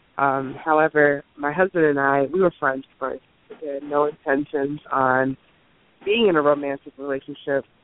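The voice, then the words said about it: Congested, slightly nasal voice. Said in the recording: “excuse my voice. I'm feeling a little congested this morning, so hopefully I'm not too nasal.”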